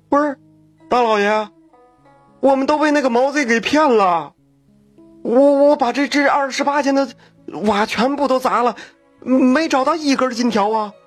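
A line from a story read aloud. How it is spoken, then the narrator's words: Mournful whining. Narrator (Chinese): 这陈员外哭丧着脸说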